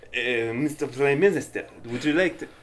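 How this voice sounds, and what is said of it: Put-on Russian accent, vampire-like. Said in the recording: “Where did my accent go? ... You sound like a scary vampire! ... What is it, Russian ambassador?”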